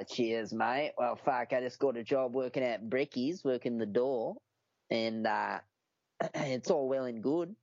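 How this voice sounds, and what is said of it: Put-on Australian accent. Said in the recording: “a good Aussie accent”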